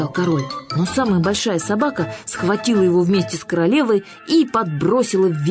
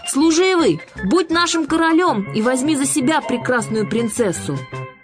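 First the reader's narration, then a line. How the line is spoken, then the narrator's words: Dogs shouting. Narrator (Russian): все три собаки кричали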